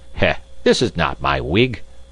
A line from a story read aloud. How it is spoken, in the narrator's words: he exclaimed